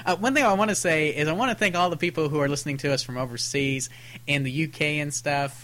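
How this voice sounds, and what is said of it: Texas accent. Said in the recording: “our Texas accents must offend your ears”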